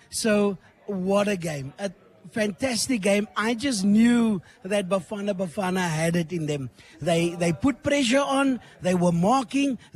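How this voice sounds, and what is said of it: Hoarse, strained, nearly lost voice. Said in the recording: “as you can hear, I lost my voice ... My voice is gone.”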